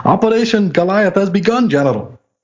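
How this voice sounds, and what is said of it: Mock German soldier character voice. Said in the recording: “how do I do a Nazi soldier voice? ... Put on your best Colonel Klink.”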